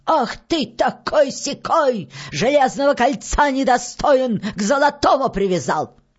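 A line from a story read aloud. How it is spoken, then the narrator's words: Loud witch shout. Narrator (Russian): Закричала баба-яга громким голосом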